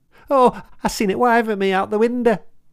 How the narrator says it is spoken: wailed the boy

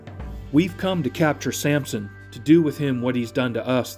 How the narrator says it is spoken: they replied

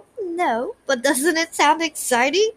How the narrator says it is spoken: He laughed again

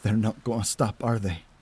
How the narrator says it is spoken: I mutter in despair

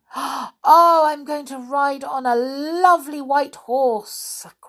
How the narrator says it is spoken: cried another

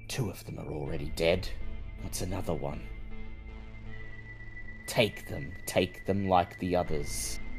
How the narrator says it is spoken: The voice in your head is whispering

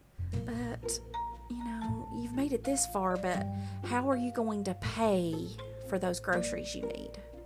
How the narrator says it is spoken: he's really good at whispering

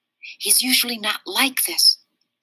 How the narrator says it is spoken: I whispered back

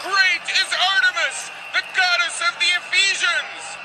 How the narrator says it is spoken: they all shouted for 2 hours

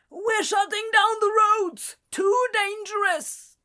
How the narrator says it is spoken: the man yelled over the wind

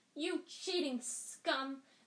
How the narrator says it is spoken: Lee Jordan was howling in the megaphone

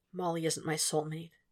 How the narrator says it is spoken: he said quietly

